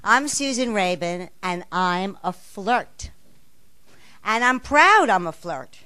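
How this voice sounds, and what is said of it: Slight accent. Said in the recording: “You might notice I have a little accent.”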